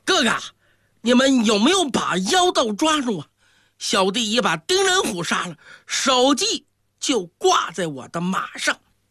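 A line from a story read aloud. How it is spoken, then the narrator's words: Shouting loudly. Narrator (Chinese): 他大声呼喊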